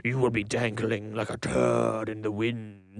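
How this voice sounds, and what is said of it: Poor imitation of Venom's voice. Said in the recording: “my Venom impression is terrible. It's not as good as my Bane impression,”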